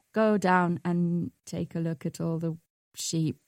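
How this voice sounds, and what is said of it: Put-on Welsh accent. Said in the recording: “I'm stuck in a Welsh accent now ... You're not Indian anymore. You're Welsh.”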